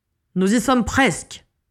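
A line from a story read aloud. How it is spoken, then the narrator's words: Encouraging shout. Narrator (French): cria Dumbledore pour encourager les aurores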